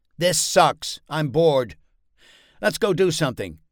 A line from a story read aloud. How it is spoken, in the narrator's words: Kyle's impatience and frustration rose to a crescendo, and then he blurted out